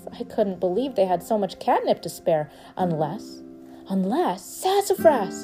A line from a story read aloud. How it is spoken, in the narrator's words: I shouted